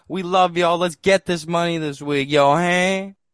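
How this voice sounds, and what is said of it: Booming radio promoter voice. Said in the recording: “radio voice ... The promoter voice”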